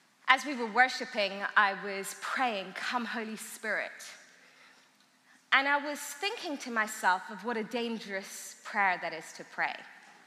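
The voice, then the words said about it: Strong unusual accent. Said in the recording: “my crazy accent”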